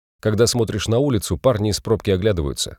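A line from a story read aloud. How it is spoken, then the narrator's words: Plain. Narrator (Russian): сказал Ландвик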